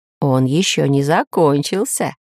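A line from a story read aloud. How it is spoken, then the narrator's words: Laughing. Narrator (Russian): засмеялся профессор Пыхтелкин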